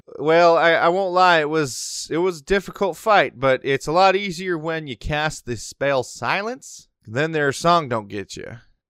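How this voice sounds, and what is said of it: Character voice with Western accent. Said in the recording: “Was he Western the last time I voiced this guy? ... I'm not sold on this accent. ... It's such a Western name, though.”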